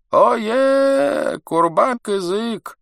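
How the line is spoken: Shouted. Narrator (Russian): закричал он

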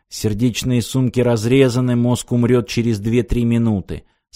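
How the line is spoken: Calm. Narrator (Russian): спокойно сказал Аранг

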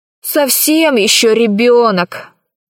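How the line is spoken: Grumbling. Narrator (Russian): проворчал Пашка

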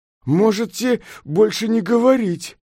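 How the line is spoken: Angry exclamation. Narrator (Russian): гневно воскликнул Сунь-Укун

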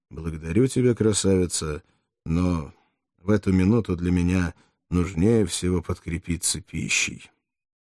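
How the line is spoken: Smiling, hiding disgust. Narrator (Russian): Фракиец улыбнулся, чтобы скрыть отвращение, которое она внушала ему, и сказал

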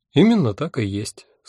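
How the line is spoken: Calm agreement. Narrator (Russian): спокойно согласилась Альвианта

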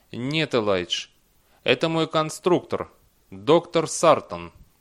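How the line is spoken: Calm reply. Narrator (Russian): Дэниел спокойно ответил

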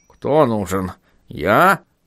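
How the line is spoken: Squeaked. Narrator (Russian): пропищал Шнобби

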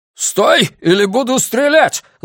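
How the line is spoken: Shouting. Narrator (Russian): заорал Миртон

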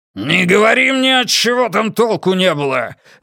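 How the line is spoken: Barked angrily. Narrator (Russian): рявкнул отец

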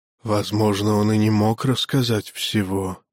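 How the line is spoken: Creaky voice from behind. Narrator (Russian): проскрипел за спиной брахман

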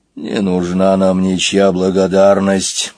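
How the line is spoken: Grumbling lion. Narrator (Russian): проворчал лев

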